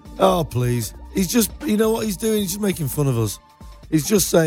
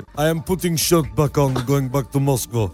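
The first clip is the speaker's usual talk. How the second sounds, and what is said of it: Mock Russian accent. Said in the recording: “your Vladimir Putin accent”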